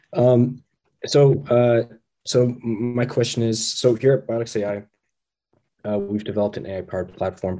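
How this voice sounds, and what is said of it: Sick-sounding voice. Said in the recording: “Sorry, I'm a little sick, so my voice is a lot of it.”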